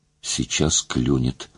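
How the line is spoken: Whispered. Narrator (Russian): шептал

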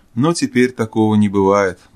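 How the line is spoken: Gloomy. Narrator (Russian): добавил уныло

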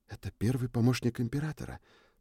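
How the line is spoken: Whisper. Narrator (Russian): прошептала Триш

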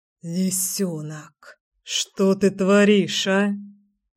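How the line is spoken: Mumbled. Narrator (Russian): пробормотал Кир

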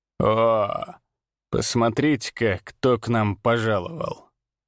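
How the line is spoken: Drawling. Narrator (Russian): протянул он

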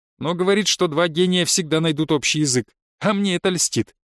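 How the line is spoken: Snorting. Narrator (Russian): хмыкнула Наташа

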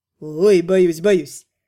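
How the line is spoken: Pleased dragon laughing. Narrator (Russian): Рассмеялся довольный дракон

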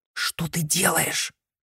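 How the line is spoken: Hiss. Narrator (Russian): прошипела Мияка

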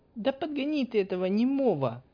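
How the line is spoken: Exasperated girlish squeak. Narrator (Russian): раз в сотый пискнула девушка

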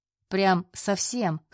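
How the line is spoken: Chuckling. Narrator (Russian): хохотнул Андрей

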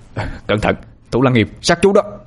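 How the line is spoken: Shouted warning. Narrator (Vietnamese): hét lên

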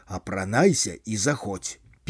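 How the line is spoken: Hushed voice after a cough. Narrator (Belarusian): Другі сакратар ЦК кашлянуў і ўжо прытоеным голасам паведаміў

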